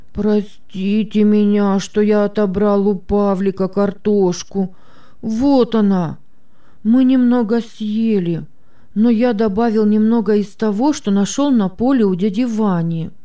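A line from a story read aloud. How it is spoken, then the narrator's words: Heavy sigh, sobbing. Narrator (Russian): Петя тяжело вздохнул и, всхлипывая, произнес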